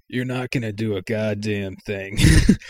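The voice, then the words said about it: Impression of the character Mike. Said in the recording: “That's a good Mike impression.”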